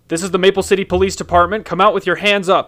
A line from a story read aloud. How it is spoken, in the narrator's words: Robbie shouted